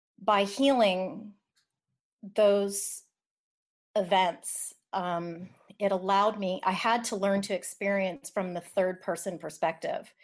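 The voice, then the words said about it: Shaky, trembling voice. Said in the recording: “my voice is actually shaking a little bit right now”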